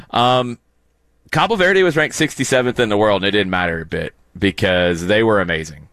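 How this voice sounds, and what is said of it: Hoarse, strained voice. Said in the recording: “My voice is a little shattered because I was yelling a lot.”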